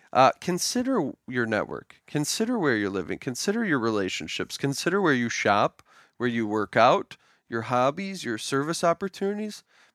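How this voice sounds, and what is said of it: Smooth Wisconsin accent. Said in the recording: “Wisconsin accent ... that's smooth Wisconsin accent ... It's so smooth”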